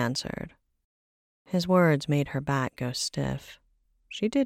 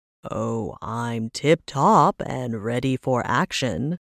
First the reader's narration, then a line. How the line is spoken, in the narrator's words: he replied with an equally loud voice